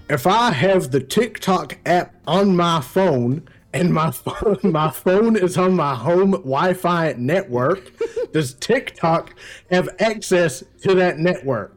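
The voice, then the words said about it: Put-on American accent. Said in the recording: “let me put on my American accent”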